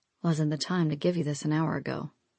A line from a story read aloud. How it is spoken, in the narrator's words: Nightingale muttered